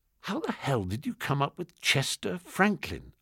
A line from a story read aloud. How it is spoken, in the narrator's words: I whispered